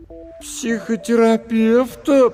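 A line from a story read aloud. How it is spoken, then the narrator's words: Drawled. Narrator (Russian): протянула Маша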